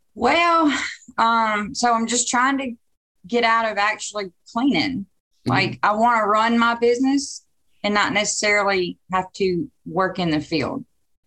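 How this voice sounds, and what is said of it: Mississippi Southern accent. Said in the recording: “Caledonia, Mississippi. And you will, if you don't believe that's where she's from, just wait about 19 seconds into her talking. You'll hear the accent. It is lovely. She wins accent of the month”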